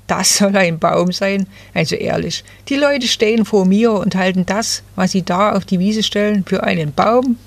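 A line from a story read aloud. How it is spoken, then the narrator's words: Rustling laughing little fir. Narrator (German): rauschte das Nadelbäumchen lachend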